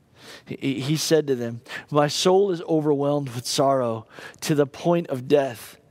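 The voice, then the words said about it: Emotional, choked-up voice. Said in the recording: “I get a little emotional.”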